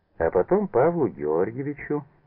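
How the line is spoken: Cheerful. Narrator (Russian): весело закончил Манберг

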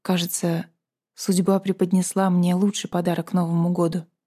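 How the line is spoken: Whisper. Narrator (Russian): прошептал он

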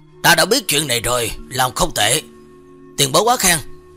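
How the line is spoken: Cold. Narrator (Vietnamese): lạnh lùng nói

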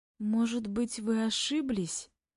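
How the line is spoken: Timid suggestion. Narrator (Russian): Робко предполагаю я

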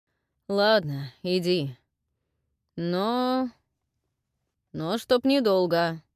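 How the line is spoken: Grumbling. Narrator (Russian): проворчал брат

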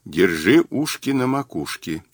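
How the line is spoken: Quiet. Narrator (Russian): тихо сказал Мазур

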